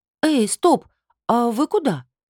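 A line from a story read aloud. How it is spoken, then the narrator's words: Bewildered. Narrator (Russian): растерянно проговорила я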